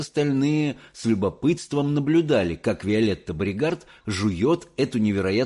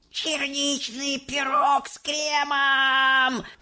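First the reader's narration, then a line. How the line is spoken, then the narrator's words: Shouting. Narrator (Russian): закричала Виолетта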